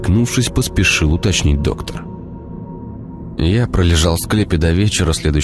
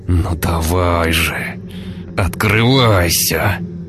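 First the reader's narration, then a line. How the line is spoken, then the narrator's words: Man grumbling. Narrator (Russian): ворчал мужчина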